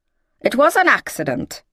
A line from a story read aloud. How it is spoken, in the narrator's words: she said, her voice harsh, the words now suddenly raw in her mouth